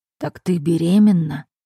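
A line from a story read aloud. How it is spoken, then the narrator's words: Whisper. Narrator (Russian): прошептал он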